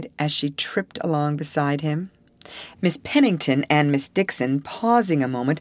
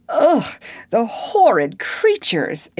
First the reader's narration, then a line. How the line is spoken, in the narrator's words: exclaimed Ruth, who could not repress a shudder